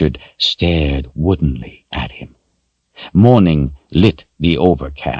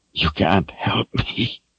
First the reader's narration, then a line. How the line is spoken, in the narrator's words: Richard whispered back hoarsely